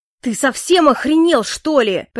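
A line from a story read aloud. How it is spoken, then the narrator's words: Furious shout. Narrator (Russian): прокричал он с такой лютой яростью в голосе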